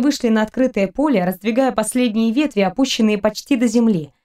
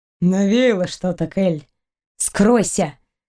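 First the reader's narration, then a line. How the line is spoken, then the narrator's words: Through gritted teeth, stunned. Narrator (Russian): Процедила Кристина сквозь зубы, слишком ошеломленная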